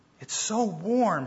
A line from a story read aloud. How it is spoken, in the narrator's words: sighed as her chill began to pass